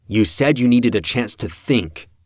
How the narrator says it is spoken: Peter snapped

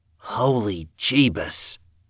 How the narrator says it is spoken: Evan whispered

